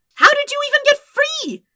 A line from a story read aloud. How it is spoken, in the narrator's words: Sokka shouted in a manner that in no way bordered on a whine